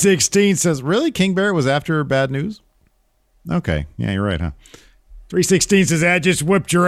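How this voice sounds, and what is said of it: Usual voice. Nothing is said of it.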